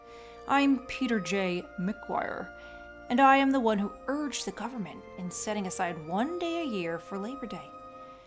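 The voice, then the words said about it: Deep male character voice. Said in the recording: “said a deep voice”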